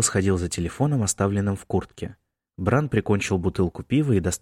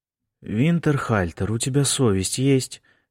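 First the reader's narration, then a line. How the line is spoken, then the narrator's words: Hoarse mutter. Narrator (Russian): хрипло пробурчала Сара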